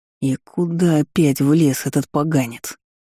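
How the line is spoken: Growling. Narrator (Russian): рыкнул мой драконистый супруг

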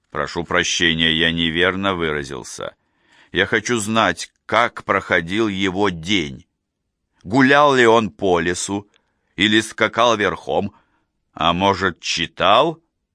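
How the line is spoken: Calm, anger subsiding. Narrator (Russian): Гнев отступил, и ответ прозвучал спокойно

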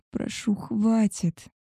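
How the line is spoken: Moaning. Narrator (Russian): стонала

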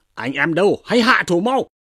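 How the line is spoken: Shouted command. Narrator (Vietnamese): Tống Giang lại quát lên rằng

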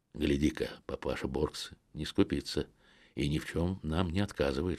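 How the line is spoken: Whisper. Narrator (Russian): шепнул я Стефану

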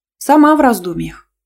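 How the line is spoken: Cheerful announcement. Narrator (Russian): весело сообщила я

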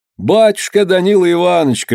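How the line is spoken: Shouted, crowd of serfs. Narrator (Russian): кричали холопы

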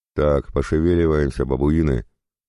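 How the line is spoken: Barked. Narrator (Russian): рявкнул папа

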